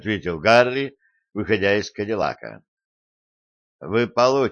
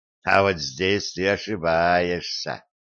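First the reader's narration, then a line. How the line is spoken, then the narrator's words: Mocking. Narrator (Russian): насмешливо бросил Делани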